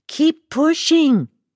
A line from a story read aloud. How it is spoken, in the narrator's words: they yelled over my screams